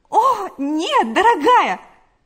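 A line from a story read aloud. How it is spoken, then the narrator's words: Exclaimed. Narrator (Russian): воскликнула Галя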